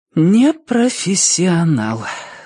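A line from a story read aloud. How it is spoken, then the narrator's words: Sigh, huntress. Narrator (Russian): вздохнула охотница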